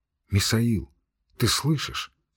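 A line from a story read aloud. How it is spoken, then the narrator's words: Quiet question. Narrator (Russian): спросила тихо жена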